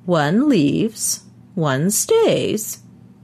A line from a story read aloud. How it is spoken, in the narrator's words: he said in his high, quavery voice